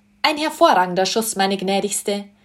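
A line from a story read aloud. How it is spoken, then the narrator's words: Man calling out. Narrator (German): rief die Stimme eines Mannes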